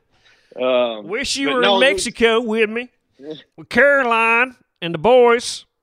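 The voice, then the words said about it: Imitates another person's voice. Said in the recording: “That's a pretty good impression.”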